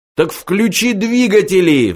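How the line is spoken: Roaring. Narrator (Russian): взревел Форд

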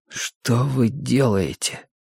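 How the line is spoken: Hoarse question. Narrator (Russian): спросил Мэтью хрипло

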